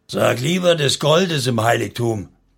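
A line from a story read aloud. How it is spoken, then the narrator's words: Angry roaring. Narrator (German): brüllte Refner ebenso wütend zurück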